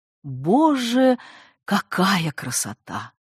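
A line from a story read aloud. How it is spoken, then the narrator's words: Breathless, sincere. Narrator (Russian): выдохнула Надежда совершенно искренне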